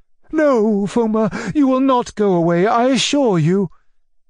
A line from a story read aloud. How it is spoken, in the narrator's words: cried my uncle